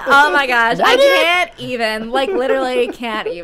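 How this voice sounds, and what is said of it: Valley Girl accent. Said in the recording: “Valley Girl style California voice ... I really enjoy doing that Valley Girl voice.”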